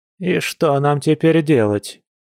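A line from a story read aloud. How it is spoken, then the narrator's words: Grumbling after pause. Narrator (Russian): Чуть помолчав, проворчала Марианна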